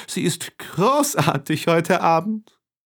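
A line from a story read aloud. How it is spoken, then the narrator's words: Calling out. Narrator (German): rief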